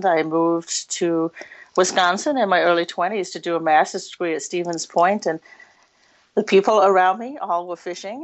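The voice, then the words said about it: English accent. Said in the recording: “I am originally from England, so if I sound funny sometimes, I just blame it on that accent.”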